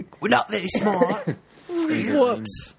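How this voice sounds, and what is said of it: Put-on British accent, alien character. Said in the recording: “the sound to be British aliens ... Where's that accent from? ... it sounds like the Beetlejuice area”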